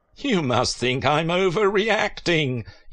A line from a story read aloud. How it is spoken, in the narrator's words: laughed